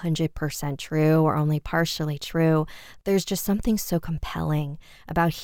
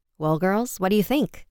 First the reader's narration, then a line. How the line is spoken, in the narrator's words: her father asked